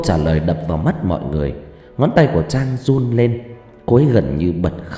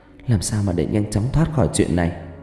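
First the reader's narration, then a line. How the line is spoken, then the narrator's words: Frightened trembling stammer. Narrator (Vietnamese): cô ấy run run, mặt tái đi trông thấy, vẫn lắp bắp lên tiếng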